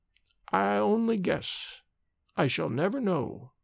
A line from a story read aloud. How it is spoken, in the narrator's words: answered slowly, in her cracked little voice